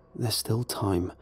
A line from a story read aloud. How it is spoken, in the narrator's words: I mumbled to myself